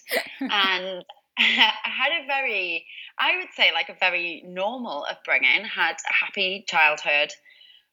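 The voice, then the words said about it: Newcastle English accent. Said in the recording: “I'm originally from Newcastle, as you can probably tell by the accent.”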